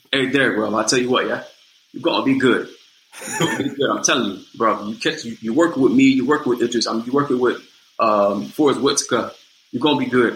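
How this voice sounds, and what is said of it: Thick British accent impression. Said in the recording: “he got this British accent, thick British accent.”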